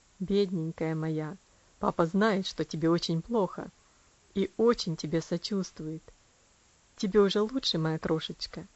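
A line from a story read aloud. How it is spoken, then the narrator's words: Soft, tender father. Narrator (Russian): Когда ей стало немножко легче, он мягко сказал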